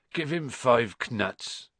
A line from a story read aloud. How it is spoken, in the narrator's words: said Hagrid sleepily